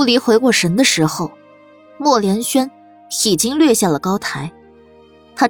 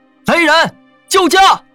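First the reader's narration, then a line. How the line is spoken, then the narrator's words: Thunderous shout. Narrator (Chinese): 他冲着高台之下震天一喊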